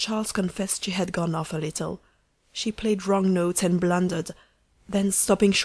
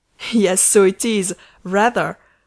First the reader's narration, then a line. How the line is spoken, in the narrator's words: said Charles, giggling stupidly